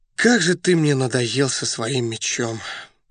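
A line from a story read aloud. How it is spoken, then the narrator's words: Exasperated sigh. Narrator (Russian): вздохнул Раст Петрович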